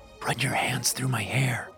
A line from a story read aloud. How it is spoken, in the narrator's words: I whispered